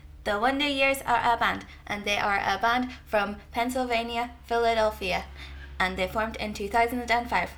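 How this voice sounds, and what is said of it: Childlike voice reading a report. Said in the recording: “doing that voice ... written like a five-year-old doing his first report on a book”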